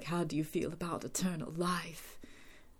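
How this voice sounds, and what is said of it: Terrible imitation of Drusilla's accent. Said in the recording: “That's a terrible accent”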